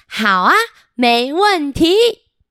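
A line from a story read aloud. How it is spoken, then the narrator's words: Loud speaking. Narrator (Chinese): 小梅很大声的说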